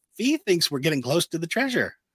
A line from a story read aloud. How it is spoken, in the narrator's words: excitedly, Omega tells them